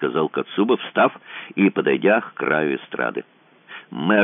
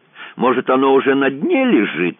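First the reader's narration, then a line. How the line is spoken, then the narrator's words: Sarcastic question. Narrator (Russian): язвительно вопросил мэр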